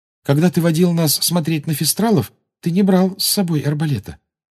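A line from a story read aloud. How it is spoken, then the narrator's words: Timid. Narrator (Russian): робко сказала Гермиона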